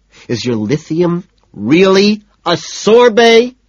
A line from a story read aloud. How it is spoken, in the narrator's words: I scream